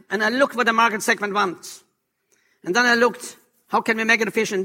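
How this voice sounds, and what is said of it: European accent. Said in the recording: “I have a European accent”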